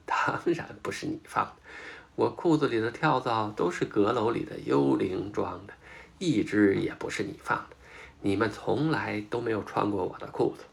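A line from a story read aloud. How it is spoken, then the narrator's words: Laughing loudly. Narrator (Chinese): 亨利大笑着说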